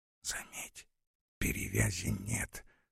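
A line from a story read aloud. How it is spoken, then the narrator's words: Whispered. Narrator (Russian): шепнул Ворошилов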